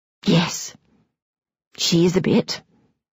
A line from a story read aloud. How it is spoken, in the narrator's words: Daringly whispers back